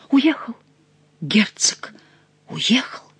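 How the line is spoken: Trembling whisper. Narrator (Russian): прошептал дрожащий бледный Монсоро

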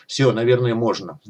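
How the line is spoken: Sighed. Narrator (Russian): вздохнул Леха

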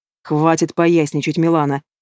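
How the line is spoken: Sharp interruption. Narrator (Russian): Резко осекаю ее

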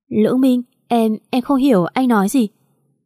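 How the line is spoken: Frightened, confused stammering. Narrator (Vietnamese): Trường Liễu Địch có phần run sợ, không hiểu chuyện gì mà lắp bắp nói

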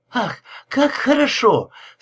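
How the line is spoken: Moaning. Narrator (Russian): стонала Карин

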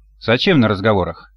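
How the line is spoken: Uncertain mutter. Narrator (Russian): неуверенно пробормотал Селиванов

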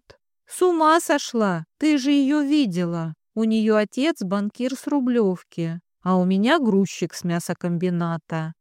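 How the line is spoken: Sad joking. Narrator (Russian): Грустно пошутила она

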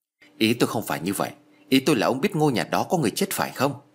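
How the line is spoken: Irritated snap. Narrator (Vietnamese): Hồng cau mặt gắt

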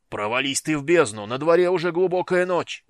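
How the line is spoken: Yelling. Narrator (Russian): завопил чей-то голос

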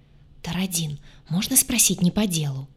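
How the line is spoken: Whisper over shoulder. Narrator (Russian): шепнула через плечо

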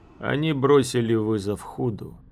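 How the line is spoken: Even tone. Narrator (Russian): сказал ровным тоном

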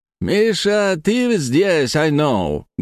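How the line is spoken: Said loudly. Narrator (Russian): громко сказал Билли

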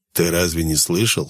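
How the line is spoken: Scoffing snort. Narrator (Russian): хмыкнул Клещ

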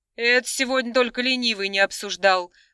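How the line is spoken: Snorting. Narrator (Russian): хмыкнула та

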